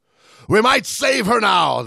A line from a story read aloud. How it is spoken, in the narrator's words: the captain shouted